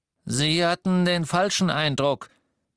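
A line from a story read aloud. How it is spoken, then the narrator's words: Higher-pitched goblin voice. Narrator (German): sagte der Kobold mit der höheren Stimme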